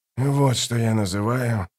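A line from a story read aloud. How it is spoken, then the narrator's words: Muttered. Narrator (Russian): пробормотал Ток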